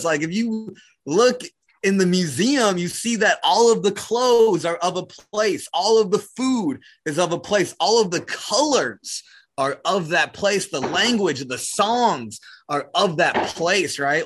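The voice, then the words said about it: New Zealand accent. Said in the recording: “I have an accent because we're from a place ... When you're in New Zealand, you just belong”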